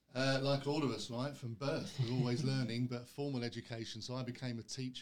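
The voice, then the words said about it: London English accent. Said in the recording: “originally from London, as you can maybe tell from the accent”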